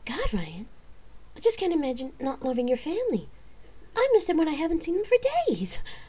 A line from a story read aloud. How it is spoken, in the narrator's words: she laughed